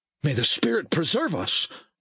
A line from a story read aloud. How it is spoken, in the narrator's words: the man blurted